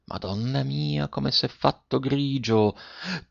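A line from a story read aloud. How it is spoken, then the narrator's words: Quiet voice. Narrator (Italian): disse piano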